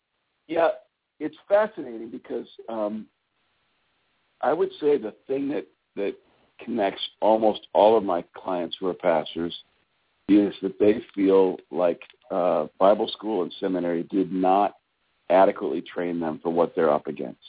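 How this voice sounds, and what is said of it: Scratchy throat, sounds like a cold. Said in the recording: “Excuse me for my scratchy throat ... I've got a bit of a cold. ... forgive me for coughing into the phone.”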